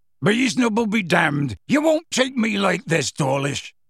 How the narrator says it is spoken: Hagrid roared

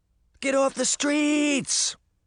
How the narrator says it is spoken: Sabrina cried

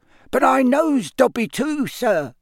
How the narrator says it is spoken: squeaked the elf

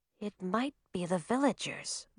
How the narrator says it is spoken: Zoe whispered

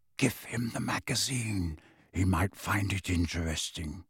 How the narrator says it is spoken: added in a whisper

